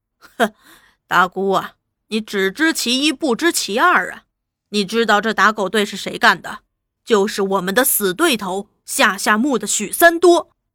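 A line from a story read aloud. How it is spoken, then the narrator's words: Laughing. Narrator (Chinese): 大头笑道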